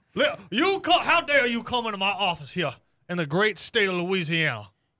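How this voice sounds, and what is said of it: Fake Southern US accent. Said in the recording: “With my fake Southern accent.”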